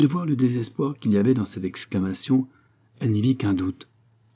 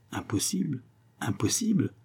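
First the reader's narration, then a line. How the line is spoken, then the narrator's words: Murmur. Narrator (French): murmura-t-il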